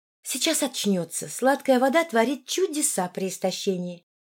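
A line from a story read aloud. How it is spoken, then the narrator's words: Soft, gentle. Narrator (Russian): мягко сказала Линая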